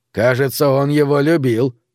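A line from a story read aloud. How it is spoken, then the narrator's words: Grumbled. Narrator (Russian): проворчал Джесси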